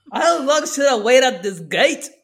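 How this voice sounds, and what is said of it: Put-on Scottish accent. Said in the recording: “That's my Scottish accent at best, sorry.”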